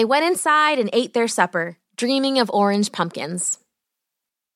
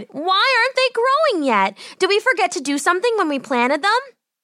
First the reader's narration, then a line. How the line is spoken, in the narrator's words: cried